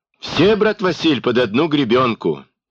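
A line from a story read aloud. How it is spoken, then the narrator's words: Cheerful sympathy. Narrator (Russian): весело посочувствовал Хоня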